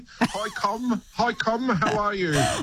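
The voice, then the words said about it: Broad put-on New Zealand accent. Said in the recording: “your broadest New Zealand accent”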